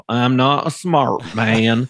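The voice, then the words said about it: Bad Forrest Gump impression. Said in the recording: “I'm going to do a bad impersonation, but I'll do my Forrest Gump.”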